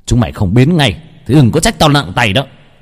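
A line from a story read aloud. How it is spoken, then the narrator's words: Shouting. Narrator (Vietnamese): Gã hét lên một tiếng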